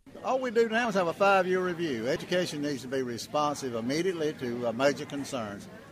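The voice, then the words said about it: Strong rural Southern US accent. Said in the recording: “Jerry Tillman's accent ... with Jerry Tillman, you will find really all of the Southern features I just mentioned, plus a few others. And I think they're not very difficult to hear”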